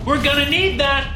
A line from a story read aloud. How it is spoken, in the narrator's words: Max yelled